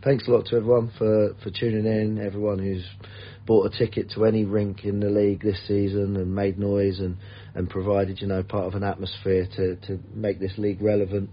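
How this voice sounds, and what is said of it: Worn-out, strained voice. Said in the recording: “I've had a long year, as you can probably tell from my voice. ... I need to rest my voice.”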